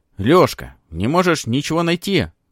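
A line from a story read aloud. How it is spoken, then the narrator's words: Shouted. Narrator (Russian): крикнул Храмов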